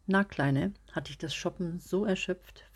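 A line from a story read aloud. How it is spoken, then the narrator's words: Casual question breaking silence. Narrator (German): fragte Peter dann leger und brach damit das müde Schweigen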